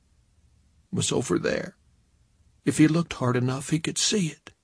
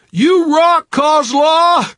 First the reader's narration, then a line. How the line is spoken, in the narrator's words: shouted